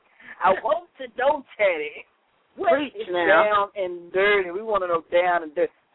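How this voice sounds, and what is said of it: Put-on sexy voice like Bill Cosby. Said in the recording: “I was in my sexy voice. Now you got me talking like Bill Cosby over here.”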